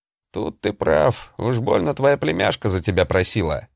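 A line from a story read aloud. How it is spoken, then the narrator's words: Big man's grunt. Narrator (Russian): хмыкнул здоровяк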